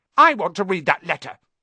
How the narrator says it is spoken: he said loudly

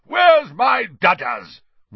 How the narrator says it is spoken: roared Aunt Marge

